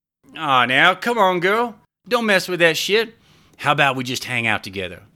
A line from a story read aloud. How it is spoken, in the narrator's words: slurred